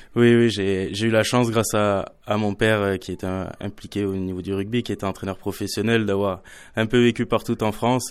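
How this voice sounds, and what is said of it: Slight southwestern French accent. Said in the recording (French): “j'entends un petit accent là ... un petit accent du Sud-Ouest”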